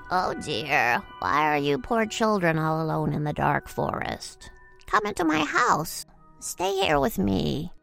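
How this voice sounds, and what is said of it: Gentle but unpleasant old witch voice. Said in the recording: “put on her gentlest voice, which, to be honest, was still super unpleasant”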